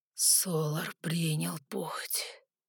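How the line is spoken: Breathless exhale. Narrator (Russian): выдохнул Гримиум

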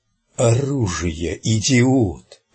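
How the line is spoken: Hissed in pain. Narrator (Russian): прошипел Кадберт, и в его голосе явственно слышалась боль

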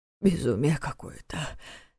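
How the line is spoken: Breathless, forced out. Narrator (Russian): тяжело дыша выдавил из себя Неф

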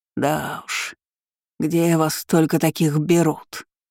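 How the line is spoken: Grumbled. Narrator (Russian): проворчала Ангелина

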